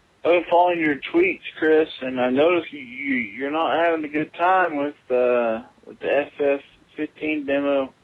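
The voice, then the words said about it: Texas accent. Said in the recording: “Maybe it's my Texas accent”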